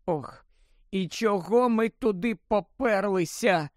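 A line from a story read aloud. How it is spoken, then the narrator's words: Groaned after silence. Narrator (Ukrainian): простогнала Герміона після кількох хвилин мовчання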